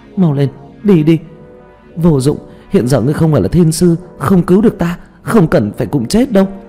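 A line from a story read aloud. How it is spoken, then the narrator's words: Shouting. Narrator (Vietnamese): hét lên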